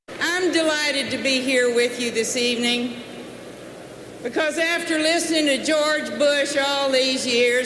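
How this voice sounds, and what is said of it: Texas accent. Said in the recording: “what a real Texas accent sounds like”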